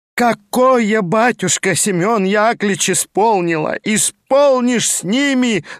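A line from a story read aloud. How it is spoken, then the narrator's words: Wailing yell. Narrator (Russian): завопила вдова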